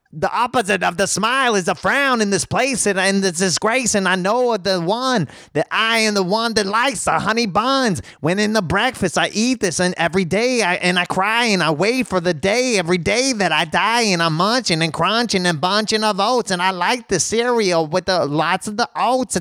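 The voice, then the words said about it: Imitates another person's rapping voice. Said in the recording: “my Eminem impression.”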